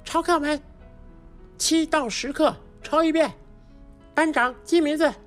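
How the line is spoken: Loud. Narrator (Chinese): 老师回头就大声地说

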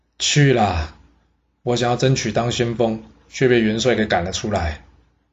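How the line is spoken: Sighing. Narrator (Chinese): 狼婶叹了口气说

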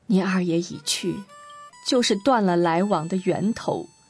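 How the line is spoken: Murmuring to himself. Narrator (Chinese): 爸爸……像是喃喃自语

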